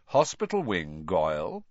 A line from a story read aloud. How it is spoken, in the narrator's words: Snape said calmly